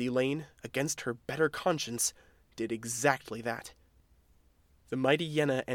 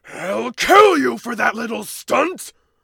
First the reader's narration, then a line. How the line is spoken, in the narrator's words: The mighty Yenna's roar shook the ground beneath them